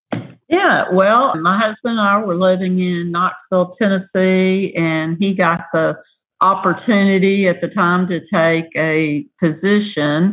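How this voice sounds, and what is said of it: Southern American accent. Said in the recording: “that is not a Houston accent... That is definitely not a Houston accent. I was born and raised in Mississippi... spent the majority of my time in the South”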